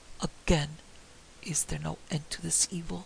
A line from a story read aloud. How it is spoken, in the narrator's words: he muttered